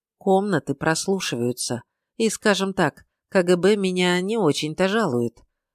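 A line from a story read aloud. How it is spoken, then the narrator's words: Quiet, smiling. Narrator (Russian): он говорил тихо, но сопровождал свое ужасное заявление улыбкой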